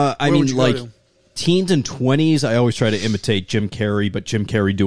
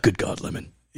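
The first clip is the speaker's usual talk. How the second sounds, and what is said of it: Alec Baldwin impression as Jack Donaghy. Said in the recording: “maybe an Alec Baldwin, I guess. ... That's a really good Jack Donaghy.”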